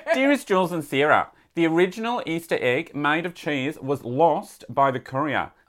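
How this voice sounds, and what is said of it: Put-on Australian accent. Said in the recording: “please read in your best Australian accent.”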